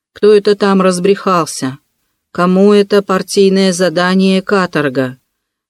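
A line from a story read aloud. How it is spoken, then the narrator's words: Hollow, muffled voice. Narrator (Russian): глухо заговорил он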